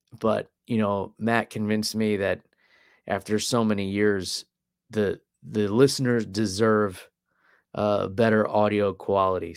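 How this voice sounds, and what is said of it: Slightly rough, hoarse voice. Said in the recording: “my voice is still a little rough from the cold or whatever it was I had last week”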